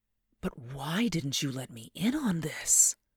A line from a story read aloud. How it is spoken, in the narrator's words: I gasped, a sudden surge of hope welling up in my throat so that I could hardly speak